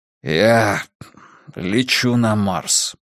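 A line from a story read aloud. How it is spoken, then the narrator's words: Hoarse croak. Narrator (Russian): прохрипел он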